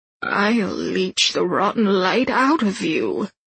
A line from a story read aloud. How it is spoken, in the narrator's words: Lilu says, her voice a watery gurgle